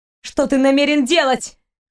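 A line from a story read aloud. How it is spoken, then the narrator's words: Young woman shouting. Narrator (Russian): выкрикнула девушка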